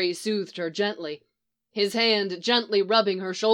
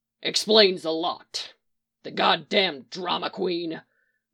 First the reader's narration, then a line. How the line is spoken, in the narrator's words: Mick growled